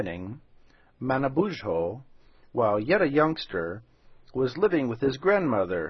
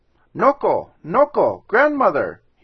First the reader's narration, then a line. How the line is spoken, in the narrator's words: he cried